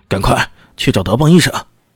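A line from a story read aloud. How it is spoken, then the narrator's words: Angry roar at servants. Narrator (Chinese): 冲着下人大吼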